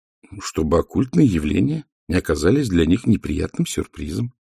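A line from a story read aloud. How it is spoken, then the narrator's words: Calm woman's answer. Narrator (Russian): спокойно ответила мисс Сьюзен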